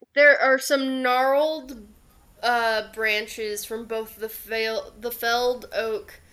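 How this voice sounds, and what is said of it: Strong Southern US accent slipping out. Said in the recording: “My southern accent just came out real bad there.”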